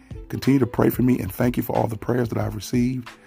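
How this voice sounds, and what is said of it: Impaired, unwell-sounding voice. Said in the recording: “sorry for my voice. I've had surgery.”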